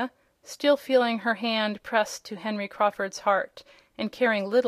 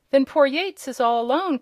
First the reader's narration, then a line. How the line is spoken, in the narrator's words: cried Tom